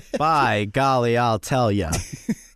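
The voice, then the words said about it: Imitates another person's voice. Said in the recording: “Well, that sounds like John Wayne. ... A little Bugs Bunny in there, too. Like, he's munching on a carrot”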